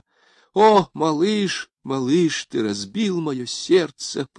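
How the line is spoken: Moaning. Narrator (Russian): простонала она

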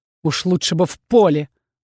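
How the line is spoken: Dragon's growl. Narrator (Russian): рыкнул дракон

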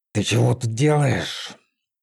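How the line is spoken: Displeased growl. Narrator (Russian): недовольно прорычала Василина

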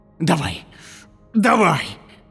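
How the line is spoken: Hoarse, in pain. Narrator (Russian): прохрипел гусак, корчась

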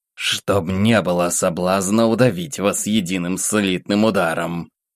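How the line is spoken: Angry, through teeth. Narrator (Russian): зло процедила княгиня

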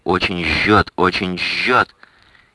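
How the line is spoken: Shout. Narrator (Russian): крикнул Генриху

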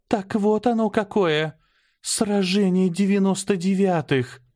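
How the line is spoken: Breathless exclamation. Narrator (Russian): выдохнула Аня

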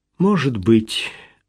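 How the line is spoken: Sad agreement. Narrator (Russian): грустно согласилась Мариэлла

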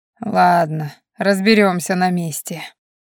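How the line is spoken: Tired authoritative voice. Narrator (Russian): устало от перепалки проговорил авторитарный голос

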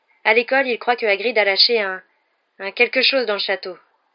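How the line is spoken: Forced calm. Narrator (French): dit Harry en essayant de parler le plus calmement possible

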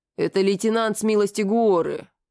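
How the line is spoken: Reluctant grumble. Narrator (Russian): Неохотно проворчал посыльный

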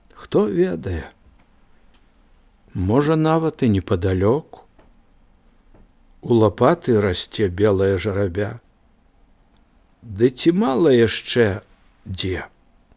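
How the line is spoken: Quiet old man's answer. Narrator (Belarusian): дзед адказаў таксама ціха

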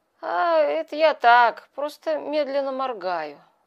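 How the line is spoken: Sleepy mumble, old woman. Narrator (Russian): сонно пробормотала бывшая старуха

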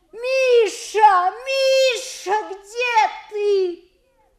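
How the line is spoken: Loud frantic womanly shout. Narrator (Russian): нисколько не владея собой, закричала на всю улицу громко по бабье

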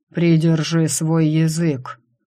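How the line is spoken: Deep, drawn-out quiet command. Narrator (Russian): Утробным голосом, растягивая слова, тихо приказал

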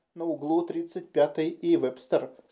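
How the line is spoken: Plain. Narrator (Russian): сказала девушка

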